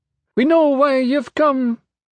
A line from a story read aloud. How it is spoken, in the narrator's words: the pygmy woman said, her voice high-pitched